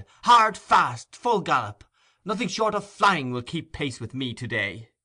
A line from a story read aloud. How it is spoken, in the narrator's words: he cried